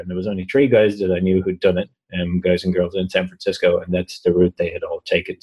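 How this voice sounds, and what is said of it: Strong accent, hard to understand. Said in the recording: “Everything about you is strange. That's not true. Just your accent. ... I like this guy, but I really can only understand every other word he's saying”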